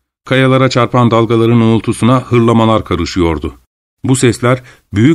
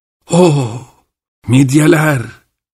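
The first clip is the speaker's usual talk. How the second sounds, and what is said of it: Trembling old man's exclamation. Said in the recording (Turkish): “diye haykırdı titrek sesiyle”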